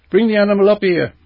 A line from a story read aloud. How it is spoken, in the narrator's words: shouted again